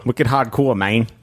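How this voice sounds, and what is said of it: Mock Boston-Mexican accent. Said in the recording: “my Boston Mexican accent”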